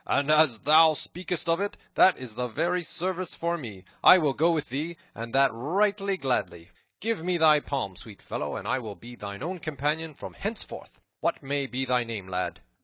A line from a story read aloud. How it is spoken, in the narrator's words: cried the cook right heartily